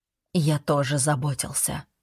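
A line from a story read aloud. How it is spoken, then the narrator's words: Quiet. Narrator (Russian): тихо сказал я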